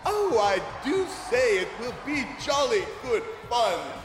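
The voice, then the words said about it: Put-on English accent. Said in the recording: “he puts on an English accent”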